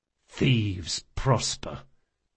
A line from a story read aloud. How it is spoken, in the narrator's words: muttered Locke under his breath